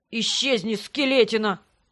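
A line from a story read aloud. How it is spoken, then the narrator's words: Grumbled. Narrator (Russian): Пробурчал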